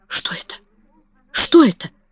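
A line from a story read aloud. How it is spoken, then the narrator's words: Whisper. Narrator (Russian): прошептала миссис Ленокс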